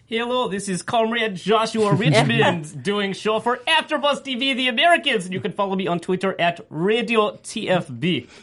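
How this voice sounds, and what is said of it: Put-on foreign accent. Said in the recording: “Do you think I could keep up this accent for the entire show?”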